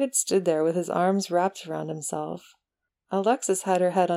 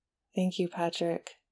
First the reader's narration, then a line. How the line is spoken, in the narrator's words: he murmured